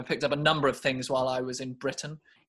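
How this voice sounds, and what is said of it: Put-on British accent. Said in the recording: “you're British now, are you? ... I've actually picked up this British accent.”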